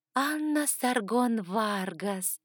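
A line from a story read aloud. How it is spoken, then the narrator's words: Dreamy drawl. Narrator (Russian): мечтательно протянула она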